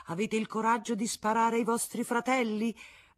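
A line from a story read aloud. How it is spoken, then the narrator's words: Young boy shouting. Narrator (Italian): un ragazzetto avvolto in una bandiera tricolore gridava alle guardie nazionali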